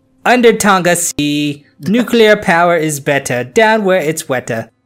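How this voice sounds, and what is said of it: Put-on Jamaican-style accent. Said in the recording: “a good little Jamaican accent there”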